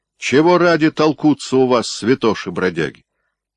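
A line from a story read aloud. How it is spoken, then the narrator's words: Stern question from a tsar. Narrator (Russian): строго спросил царь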